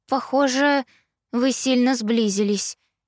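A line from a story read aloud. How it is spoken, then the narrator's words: Hesitant, cautious. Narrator (Russian): неуверенно заметила я, боясь спугнуть их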